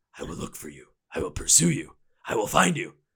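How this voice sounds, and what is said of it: Imitates a movie character's menacing voice. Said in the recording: “I'm going to go all Liam Neeson from Taken on you.”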